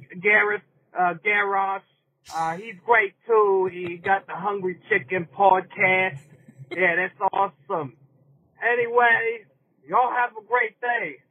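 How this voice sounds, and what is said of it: Bad New York accent. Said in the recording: “was he doing a bad New York accent? ... whether he was faking that accent or that is legitimately his accent. I think he's faking it.”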